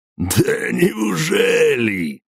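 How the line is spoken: Laughing. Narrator (Russian): снова рассмеялся Харон

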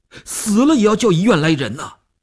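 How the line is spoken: Tense, nearly shouting. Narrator (Chinese): 吴长天头皮一紧，他几乎要喊起来

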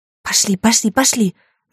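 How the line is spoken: Hissing. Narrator (Russian): зашипела

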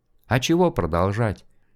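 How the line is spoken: Listless mumble. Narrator (Russian): вяло промямлил Шкляр

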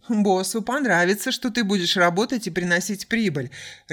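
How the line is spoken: Laughing. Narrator (Russian): рассмеялся он

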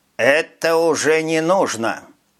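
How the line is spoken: Plain, dwarf. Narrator (Russian): сказал карлик

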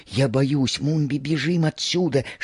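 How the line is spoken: Whispering. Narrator (Russian): шептала Лиелин

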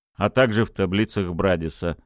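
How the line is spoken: Snorting. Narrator (Russian): хмыкнул Кольцов

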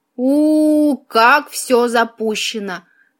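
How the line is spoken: Drawn-out, tongue-clicking. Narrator (Russian): протянул он, цокая языком

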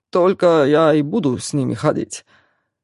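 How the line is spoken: Chuckling reply. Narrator (Russian): хохотнул в ответ Алекс

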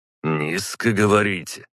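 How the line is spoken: Skeptical snort. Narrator (Russian): хмыкнул на это Салтыков

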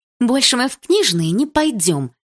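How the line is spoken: Irritated. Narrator (Russian): раздраженно сказала Милана

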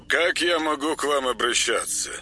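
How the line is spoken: Official male voice on phone. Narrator (Russian): Осведомилась трубка казенным мужским голосом

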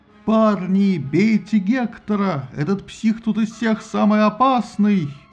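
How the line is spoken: Thunderous shout. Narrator (Russian): он вскричал громовым голосом

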